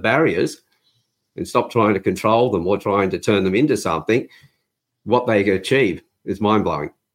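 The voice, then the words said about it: Non-American accent. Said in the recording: “your accent is not American”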